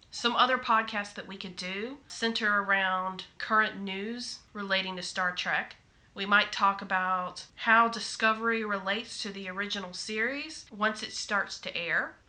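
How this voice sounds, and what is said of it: Southern American accent. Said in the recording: “I have a Southern accent ... although not in the Deep South”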